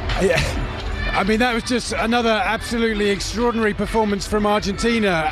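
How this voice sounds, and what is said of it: English accent. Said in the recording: “you can probably tell from my accent that I might have a little preference for the England team”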